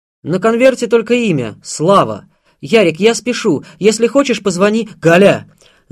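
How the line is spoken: Shouting. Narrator (Russian): закричал

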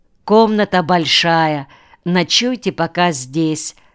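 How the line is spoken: Plain. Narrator (Russian): сказал председатель

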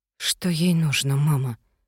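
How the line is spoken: Whispering. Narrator (Russian): прошептала я

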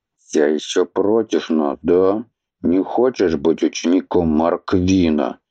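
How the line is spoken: Gloomy reply. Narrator (Russian): мрачно отозвался Хорг

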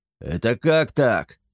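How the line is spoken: Indignant yell. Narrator (Russian): придя в себя, возмущенно завопил он

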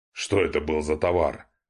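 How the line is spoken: Rude interrupting question. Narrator (Russian): Грубо перебив рассказчика, поинтересовался князь

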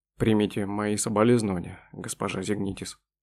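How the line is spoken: Sad voice. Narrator (Russian): печально произнес он

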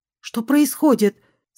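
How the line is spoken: Alarmed cry. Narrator (Russian): скрикнула

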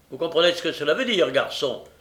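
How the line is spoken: Curt, dry stranger. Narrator (French): dit sèchement l'étranger

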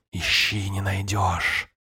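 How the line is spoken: Hissing, crystalline chiming voice. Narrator (Russian): Шипение и звон хрусталя, словно обретшие плоть лунные лучи, играли мелодию слов

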